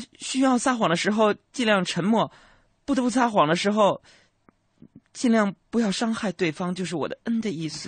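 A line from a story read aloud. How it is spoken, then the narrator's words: Quiet girl. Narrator (Chinese): 这丫头小声就说道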